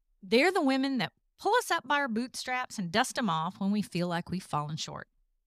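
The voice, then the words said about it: Southern US accent. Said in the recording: “if you haven't figured it out from the accent, I'm from the South.”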